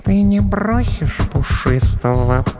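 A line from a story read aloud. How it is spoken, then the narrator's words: Sleepy purr. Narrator (Russian): промурлыкала она сонно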